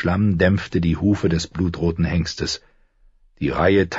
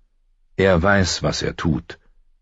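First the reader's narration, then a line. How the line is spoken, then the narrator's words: Calm. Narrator (German): sagte Ned ruhig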